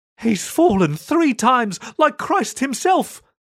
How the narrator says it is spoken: someone cried

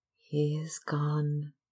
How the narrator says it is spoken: murmured Sybil sadly

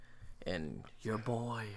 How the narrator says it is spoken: Hoster whispered

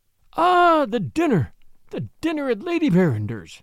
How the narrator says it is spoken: he exclaimed, more eagerly than ever

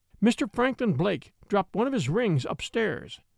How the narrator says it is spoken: says Rosanna

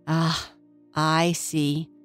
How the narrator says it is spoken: said the artist fairy sadly

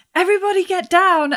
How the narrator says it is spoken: I'm going to shout

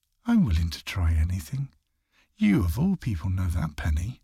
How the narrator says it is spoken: She just calmly replied with

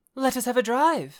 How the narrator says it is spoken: suddenly exclaimed Mrs

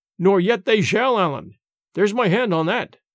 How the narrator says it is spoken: cried James, for all the world as if he had really known my name and was foregoing some advantage

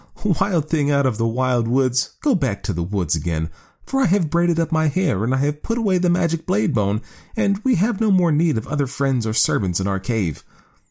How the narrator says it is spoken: The woman laughed and said

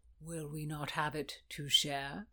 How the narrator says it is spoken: he said smoothly

